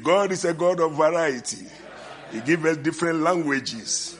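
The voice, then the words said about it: Speaker's noticeable accent. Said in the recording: “forgive my accent, but I believe you understand when I'm speaking”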